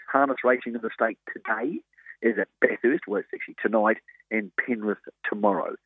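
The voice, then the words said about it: Hoarse, croaky voice. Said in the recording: “Excuse my voice, ... we're a bit croaked today”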